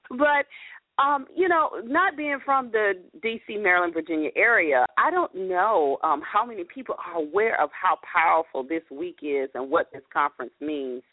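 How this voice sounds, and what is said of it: Atlanta Southern accent. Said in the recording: “I'm from Atlanta, from my accent, right, representing the ATL”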